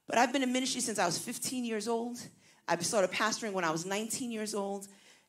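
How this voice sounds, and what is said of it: Brooklyn Puerto Rican New York accent. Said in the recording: “I sound like a Puerto Rican from Brooklyn”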